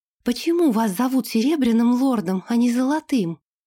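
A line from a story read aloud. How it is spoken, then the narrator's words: Breathless. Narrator (Russian): выдохнула Ирга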